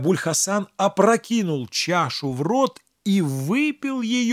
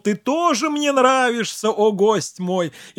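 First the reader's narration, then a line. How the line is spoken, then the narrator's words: Laughing exclamation. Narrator (Russian): Абдуль-Хасан засмеялся и воскликнул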